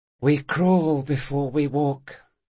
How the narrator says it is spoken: he sighed to himself

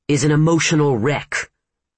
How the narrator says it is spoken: Mitch snapped

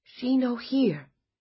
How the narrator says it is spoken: Helena said softly

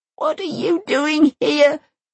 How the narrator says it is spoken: She sobs

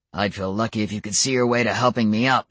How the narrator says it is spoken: Adam growled

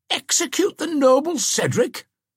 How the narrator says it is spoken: exclaimed Womba

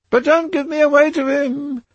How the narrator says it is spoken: she whined

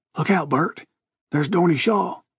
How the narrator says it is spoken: someone whisper hoarsely

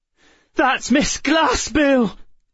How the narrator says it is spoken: Emma cried

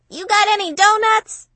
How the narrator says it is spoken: She yelled up the stairs to Romy

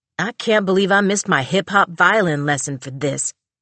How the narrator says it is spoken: he grumbled, storming out

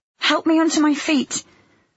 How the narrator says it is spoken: I pleaded

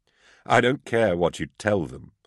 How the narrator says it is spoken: I chuckled

